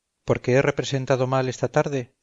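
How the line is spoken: Plain. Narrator (Spanish): contestó el actor

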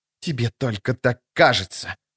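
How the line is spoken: Sorceress's hiss. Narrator (Russian): прошипела чародейка

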